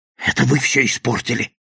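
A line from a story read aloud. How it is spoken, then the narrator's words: Hoarse rasp. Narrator (Russian): прохрипел Кейвор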